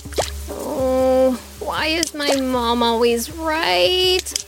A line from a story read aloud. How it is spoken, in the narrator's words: Jewel moaned